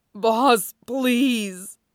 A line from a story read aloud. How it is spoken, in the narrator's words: groaned